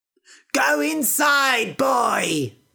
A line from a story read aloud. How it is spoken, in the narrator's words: shouted his mother